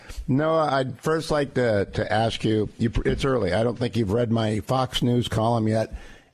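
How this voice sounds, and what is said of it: Hoarse, laryngitic voice. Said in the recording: “I've got laryngitis, but I don't have to talk much ... better than you, apparently ... laryngitis is laryngitis”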